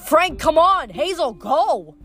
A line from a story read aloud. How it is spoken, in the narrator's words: He yelled